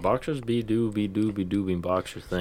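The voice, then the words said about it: Sing-song imitation of an ambulance siren. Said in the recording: “that sounds like a British ambulance”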